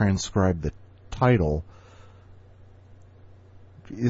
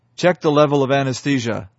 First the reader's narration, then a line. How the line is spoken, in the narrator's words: the surgeon barked